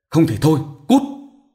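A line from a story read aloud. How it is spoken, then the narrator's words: Irritable snap. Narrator (Vietnamese): Quan gắt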